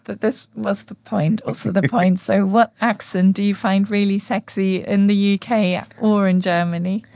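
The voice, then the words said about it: Hoarse, nearly lost voice. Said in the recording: “My voice is completely gone.”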